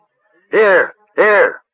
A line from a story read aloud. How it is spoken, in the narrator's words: Another shouted